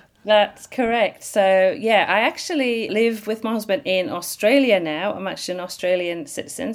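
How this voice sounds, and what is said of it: British accent. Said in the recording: “the accent we're hearing is from there originally”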